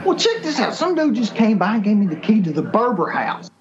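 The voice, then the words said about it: Over-the-top Kentucky accent. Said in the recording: “Kentucky ... that serious inflection in their accent. I mean, it was over the top.”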